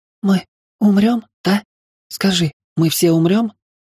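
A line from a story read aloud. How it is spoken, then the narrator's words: Rising panic into sobbing. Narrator (Russian): заводила себя подобными словами все больше и вскоре разрыдалась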